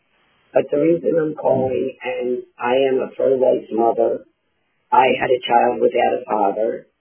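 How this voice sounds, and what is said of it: Hoarse, strained voice. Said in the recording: “Sorry about my voice. I'm having a problem with my laryngitis.”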